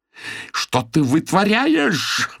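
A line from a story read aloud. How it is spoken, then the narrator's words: Monster's howl. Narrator (Russian): взвыл Минотавр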